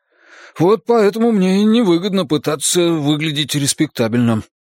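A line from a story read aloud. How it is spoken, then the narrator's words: Grumbling under breath. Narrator (Russian): буркнул стрелок себе под нос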